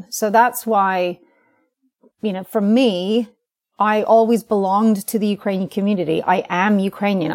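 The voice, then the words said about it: American accent. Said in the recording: “I sound very American”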